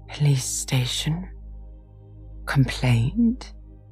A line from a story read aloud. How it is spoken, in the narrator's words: murmured Toad dreamily